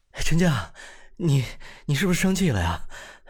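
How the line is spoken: Breathless. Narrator (Chinese): 他就气喘吁吁的

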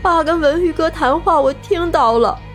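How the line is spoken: Crying. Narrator (Chinese): 李春娇哭泣着回答

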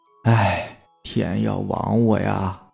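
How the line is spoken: Old man sighing. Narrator (Chinese): 爷爷叹了一口气说

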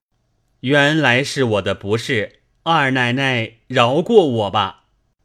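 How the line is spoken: Laughing. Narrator (Chinese): 贾琏笑道

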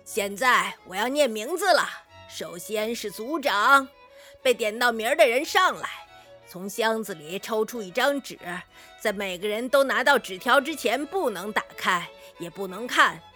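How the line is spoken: Loud calling. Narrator (Chinese): 他高声地喊道

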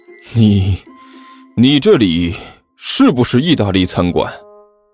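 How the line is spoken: Breathless. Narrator (Chinese): 武坚喘了口气

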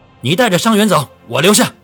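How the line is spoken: Roaring. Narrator (Chinese): 卢向同吼道

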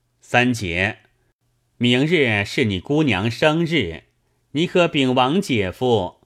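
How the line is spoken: Ingratiating, placating. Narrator (Chinese): 老鸨忙陪笑道

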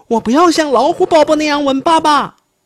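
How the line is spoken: Baby bear crying out. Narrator (Chinese): 熊宝宝叫道

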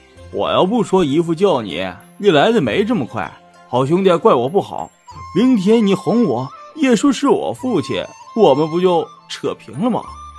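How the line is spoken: Laughing. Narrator (Chinese): 薛蟠笑着对宝玉说

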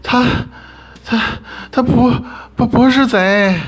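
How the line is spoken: Panting shout. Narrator (Chinese): 李奶奶喘着粗气，冲着我们这边喊

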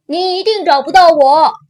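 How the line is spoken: Shouting. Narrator (Chinese): 凯西喊道

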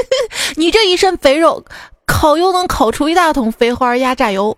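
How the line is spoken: Mocking. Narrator (Chinese): 黑胖子呢嘲笑白胖子

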